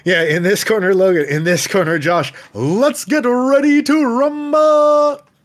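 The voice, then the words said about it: Boxing ring announcer voice. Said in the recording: “do the ring announcer voice”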